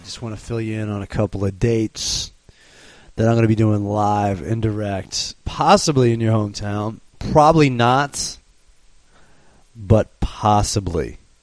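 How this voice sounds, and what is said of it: Husky, hoarse voice. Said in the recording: “How do you like my sexy voice? ... all you need is a sore throat, and you too can be suave, smooth, and sophisticated”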